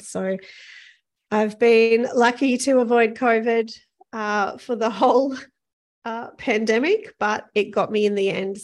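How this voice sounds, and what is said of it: Croaky, hoarse voice. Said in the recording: “You can probably hear my voice is a little croaky, because on arriving back in Auckland, I discovered that I have COVID.”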